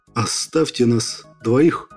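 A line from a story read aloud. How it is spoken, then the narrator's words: Unexpectedly muffled, hollow. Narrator (Russian): Неожиданно глухо произнес Петров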